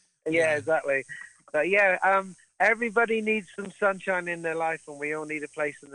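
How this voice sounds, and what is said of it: Usual voice. Nothing is said of it.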